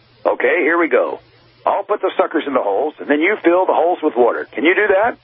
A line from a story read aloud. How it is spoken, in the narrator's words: Daddy chuckled